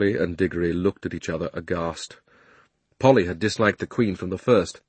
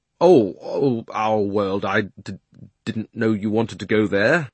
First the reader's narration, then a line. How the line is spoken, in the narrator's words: Diggory got very red in the face and stammered